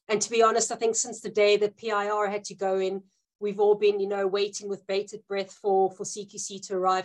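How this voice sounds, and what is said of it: Non-British accent. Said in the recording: “as you've probably picked up from my accent, I'm not British.”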